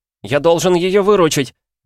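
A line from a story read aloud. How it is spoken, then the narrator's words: Stubborn shout. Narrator (Russian): упрямо крикнул он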